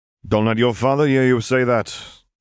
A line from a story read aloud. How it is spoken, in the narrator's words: Chalice chuckled